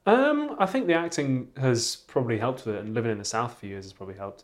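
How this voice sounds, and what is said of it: Clean received pronunciation English accent. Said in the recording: “You don't really have a Geordie accent... you've got a fairly received pronunciation. It's very clean.”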